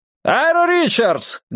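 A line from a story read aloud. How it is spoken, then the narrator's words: Loud yelling. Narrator (Russian): громко завопил охранник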